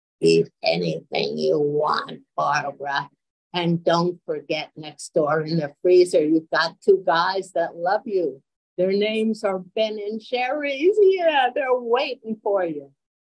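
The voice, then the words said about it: Snarky voice for a talking refrigerator. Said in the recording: “And my refrigerator would always reply in a snarky voice”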